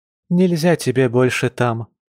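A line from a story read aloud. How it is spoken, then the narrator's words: Sad sighing mother. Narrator (Russian): печально вздохнула родительница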